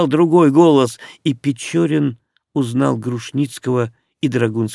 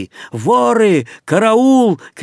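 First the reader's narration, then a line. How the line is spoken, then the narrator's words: Crowd shouting. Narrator (Russian): кричали преследователи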